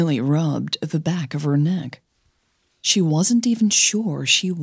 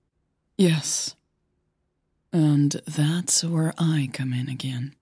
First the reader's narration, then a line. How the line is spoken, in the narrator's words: Christine said quietly